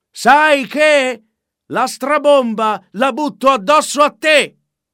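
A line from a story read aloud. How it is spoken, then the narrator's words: Shouted. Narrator (Italian): gridò al re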